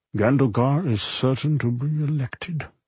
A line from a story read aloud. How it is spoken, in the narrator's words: he muttered absently